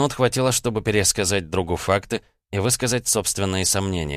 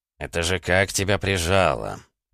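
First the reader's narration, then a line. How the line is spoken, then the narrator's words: Surprised mutter over phone. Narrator (Russian): удивленно пробормотал в трубку маг жизни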